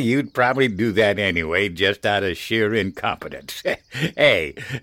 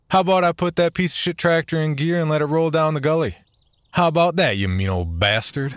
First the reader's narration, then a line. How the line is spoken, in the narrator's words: Henry chuckled